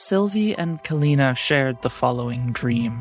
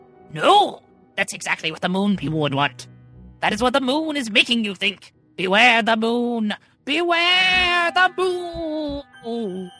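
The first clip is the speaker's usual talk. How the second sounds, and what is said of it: Silly put-on voice. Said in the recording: “silly voice”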